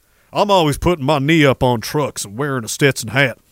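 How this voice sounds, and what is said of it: Imitated South Dakota cowboy accent. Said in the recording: “he's got a fucking South Dakota accent”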